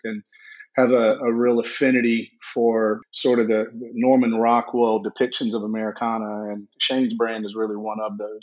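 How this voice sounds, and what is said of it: South Georgia Southern US accent. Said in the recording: “I grew up in South Georgia, if you can't tell by the accent”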